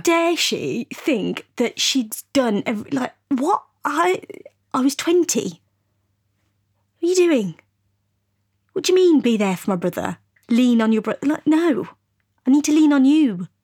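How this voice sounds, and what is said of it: Angry, upset tone of voice. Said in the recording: “you can tell by my tone, I'm pissed off ... you're very pissed off”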